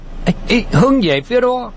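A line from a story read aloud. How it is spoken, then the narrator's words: Yelling. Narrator (Vietnamese): Khâu Trọng gào lên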